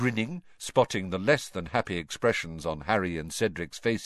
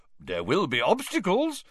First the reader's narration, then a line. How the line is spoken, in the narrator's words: said Bagman happily, bouncing on the balls of his feet